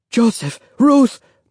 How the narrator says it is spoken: Mama cried

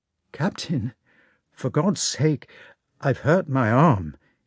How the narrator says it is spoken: he said timidly

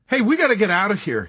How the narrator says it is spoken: he cried

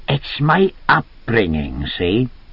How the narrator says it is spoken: he said in his musical Welsh accent

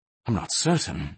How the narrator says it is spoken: the prince replied anxiously

